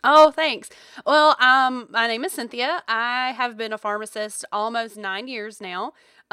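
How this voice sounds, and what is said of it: Rural Georgia Southern US accent. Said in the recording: “if you can't tell by the accent, I do live in Georgia, in rural Georgia. And so if I say y'all a lot”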